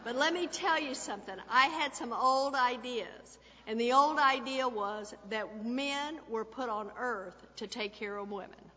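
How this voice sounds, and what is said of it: Slight Texas accent. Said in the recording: “I just hear this little bit of an accent there. I was born and raised in Texas”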